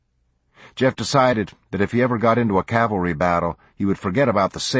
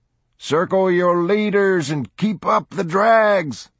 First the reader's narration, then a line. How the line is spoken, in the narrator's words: a former cowboy in the company yelled